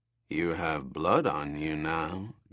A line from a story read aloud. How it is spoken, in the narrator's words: Gaxar said in a frighteningly casual voice